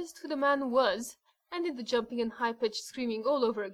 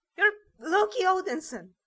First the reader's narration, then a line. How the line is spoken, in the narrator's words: cried again